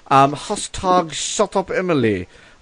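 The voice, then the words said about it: Mixed British, Australian, Russian accent. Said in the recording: “I'm very English right now. ... I don't know what that accent was actually. ... It sounded like a combination of British, Australian, and Russian.”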